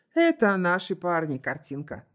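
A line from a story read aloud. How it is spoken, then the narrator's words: Snorting. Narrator (Russian): хмыкнул Чарльз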